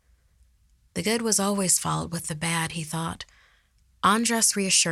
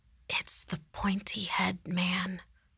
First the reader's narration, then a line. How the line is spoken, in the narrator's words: Andres whispered, a realization washing over his face